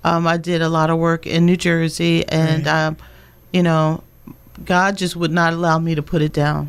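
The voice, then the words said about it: Slight New Jersey accent. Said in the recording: “I detect a little bit of that Jersey accent.”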